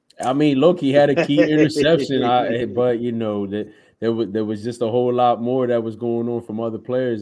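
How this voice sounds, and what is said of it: Philadelphia accent. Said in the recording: “talks in the Philly accent”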